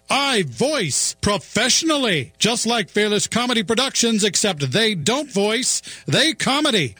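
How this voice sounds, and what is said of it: Professional announcer voice. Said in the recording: “professional announcer voice”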